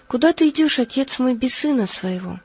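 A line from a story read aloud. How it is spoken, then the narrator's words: Tearful exclamation, young man. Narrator (Russian): молодой человек и воскликнул со слезами на глазах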